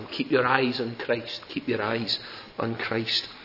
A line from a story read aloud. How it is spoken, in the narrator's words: His wife all the time pleading with him